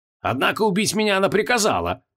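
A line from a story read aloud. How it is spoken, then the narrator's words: Angry, sneering. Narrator (Russian): зло скривился Креол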